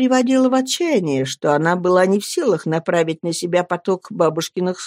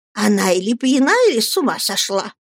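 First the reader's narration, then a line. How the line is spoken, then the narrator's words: Hissing. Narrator (Russian): прошипела мисс Морнстон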